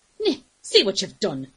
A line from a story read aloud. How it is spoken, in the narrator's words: she snapped